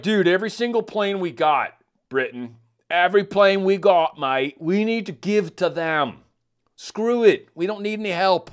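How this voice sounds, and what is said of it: Put-on accent imitating another person. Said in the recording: “I don't know why I'm trying to abuse accents today”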